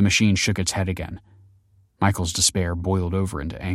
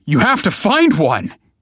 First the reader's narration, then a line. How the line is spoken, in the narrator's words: he yelled